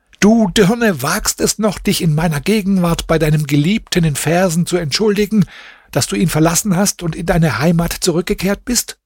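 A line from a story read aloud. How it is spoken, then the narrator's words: Furious screaming. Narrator (German): schrie voller Wut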